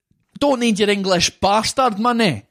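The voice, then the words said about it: Michael McIntyre's mock Scottish accent. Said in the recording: “That's Michael McIntyre imitating ... Scottish ... Scotland. ... Person.”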